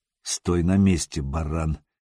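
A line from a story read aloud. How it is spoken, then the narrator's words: Quiet, hoarse, menacing. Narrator (Russian): негромко произнес Сергей по-печенежски, стараясь, чтобы голос звучал хрипло и грозно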